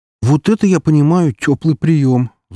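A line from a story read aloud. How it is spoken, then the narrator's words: Sighing. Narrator (Russian): вздохнула Валькирия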